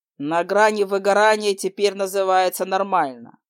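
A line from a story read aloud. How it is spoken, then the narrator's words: Icy question. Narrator (Russian): ледяным тоном осведомился лорд Арн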